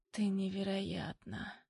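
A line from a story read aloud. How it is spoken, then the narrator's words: Hoarse. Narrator (Russian): хрипит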